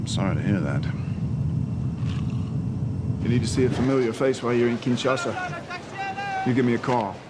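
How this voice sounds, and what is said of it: Muddled Australian-English-South African accent, slurring. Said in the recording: “his accent move all over the fucking place ... It's a little muddled. I feel like it's a little bit Australian, a little bit English, a little bit South African ... A little bit drunk ... he's slurring his words a little bit”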